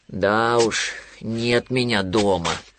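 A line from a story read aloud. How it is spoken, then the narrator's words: Sighing. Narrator (Russian): вздохнул Винни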